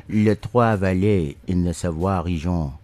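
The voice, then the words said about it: Put-on French accent. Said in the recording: “I must actually work on my French accent. ... I hope that was kind of sexy.”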